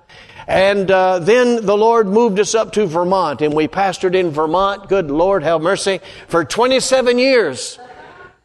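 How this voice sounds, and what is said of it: North Carolina Southern accent. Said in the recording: “That's my accent, North Carolina.”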